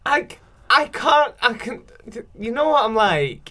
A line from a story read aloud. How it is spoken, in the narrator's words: I giggle